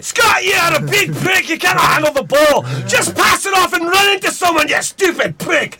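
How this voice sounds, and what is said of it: Broad put-on Scottish accent. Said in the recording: “A Scottish player. ... It's a big, broad accent”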